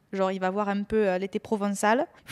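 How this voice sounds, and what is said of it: Put-on southern French accent. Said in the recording (French): “Il faut que j'arrête de prendre cet accent du Sud, c'est ridicule”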